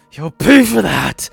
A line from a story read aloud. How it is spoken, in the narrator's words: Lacrima roared